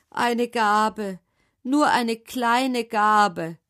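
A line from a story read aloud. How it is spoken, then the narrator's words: Man calling out. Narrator (German): rief der Mann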